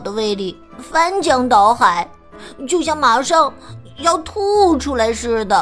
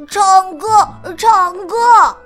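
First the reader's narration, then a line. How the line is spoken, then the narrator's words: Loud child shouting. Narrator (Chinese): 弟弟大声叫着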